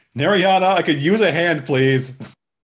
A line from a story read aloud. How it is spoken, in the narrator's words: She yells from the back room